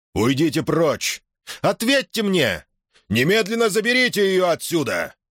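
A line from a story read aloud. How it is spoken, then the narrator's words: Shouted. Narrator (Russian): крикнул Тупелов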